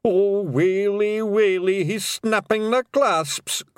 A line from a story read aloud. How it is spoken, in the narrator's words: groaned Daft Woolly